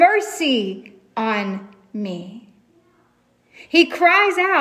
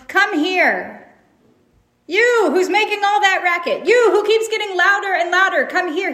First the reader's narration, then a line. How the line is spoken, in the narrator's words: But you notice Jesus doesn't yell